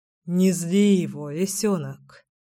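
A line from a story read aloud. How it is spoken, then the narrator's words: Sighing. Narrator (Russian): вздохнул Кирилл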